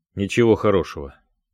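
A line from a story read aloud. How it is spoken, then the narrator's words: Gloomy admission. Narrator (Russian): мрачно признался Дронго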